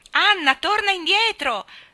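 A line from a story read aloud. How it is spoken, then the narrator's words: Shrieked, voice just recovered. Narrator (Italian): strillò Diana non appena ebbe recuperata la voce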